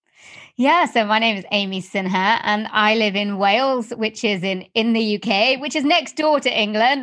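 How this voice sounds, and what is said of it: Non-American accent. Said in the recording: “is not from the US. At least your accent doesn't sound like it”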